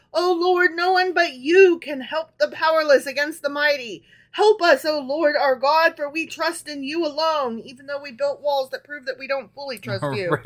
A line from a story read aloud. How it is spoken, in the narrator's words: Asa cried out to the Lord his God